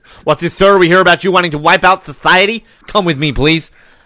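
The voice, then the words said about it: Put-on American accent. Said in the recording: “Nice American accent”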